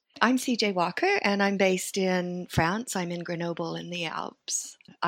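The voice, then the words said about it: Non-French accent. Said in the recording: “from your accent, people might guess that you're not actually French ... I'm American and Swedish ... I don't have a Swedish accent either”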